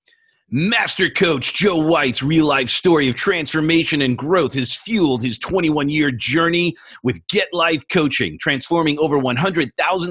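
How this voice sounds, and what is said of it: Announcer-style radio voice. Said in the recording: “I'm going to do my best radio voice.”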